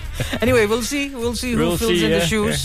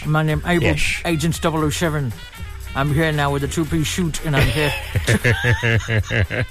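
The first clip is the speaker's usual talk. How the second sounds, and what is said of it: Imitated Scottish burr accent. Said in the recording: “that Sean Connery's Scottish burr. They call it that Scottish accent.”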